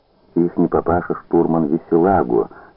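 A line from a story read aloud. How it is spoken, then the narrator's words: Plain. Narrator (Russian): сказал Пялицын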